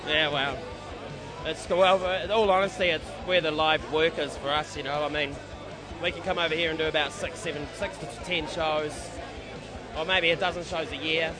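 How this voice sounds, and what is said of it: New Zealand accent. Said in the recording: “still a New Zealand band ... listen to my bloody accent”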